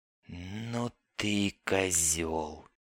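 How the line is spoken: Quiet young woman's declaration. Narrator (Russian): негромко заявила девица

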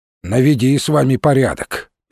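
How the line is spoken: Grumbling. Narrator (Russian): проворчал тот

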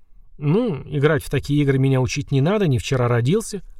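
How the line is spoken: Scoffing. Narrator (Russian): хмыкнул Ланик

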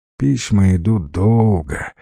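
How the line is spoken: Sigh. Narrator (Russian): вздохнул Арсюша

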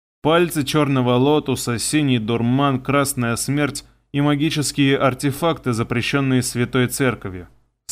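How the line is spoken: Bored listing voice. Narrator (Russian): скучным голосом перечислил он

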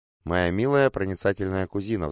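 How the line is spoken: Sighing. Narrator (Russian): вздохнула Виктория

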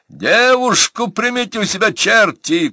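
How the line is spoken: Shouted. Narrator (Russian): крикнул Растегаев

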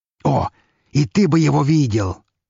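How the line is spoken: Fervent exclamation. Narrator (Russian): с жаром воскликнул граф

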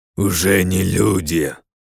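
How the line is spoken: Growling monster. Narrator (Russian): рыкнул мутант

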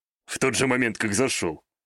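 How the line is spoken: Amused snort. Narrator (Russian): хмыкнул Такаги

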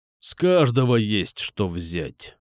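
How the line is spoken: Angry. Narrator (Russian): зло сказал барон

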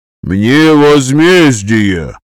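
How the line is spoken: Aristocrat bellowing. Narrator (Russian): гаркнул аристократ

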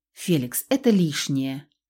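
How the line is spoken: Soft. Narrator (Russian): мягко ответила

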